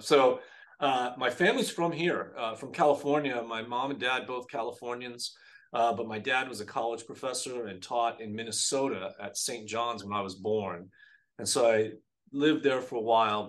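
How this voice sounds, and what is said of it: Minnesota-tinged non-Californian accent. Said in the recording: “your accent. It's like, it doesn't sound like California... I blame it on Minnesota”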